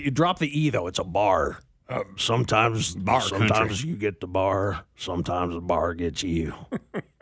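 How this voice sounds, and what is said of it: Put-on Southern accent. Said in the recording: “your Southern accent is second to none”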